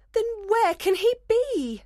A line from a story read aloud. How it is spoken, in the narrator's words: Hermia cried desperately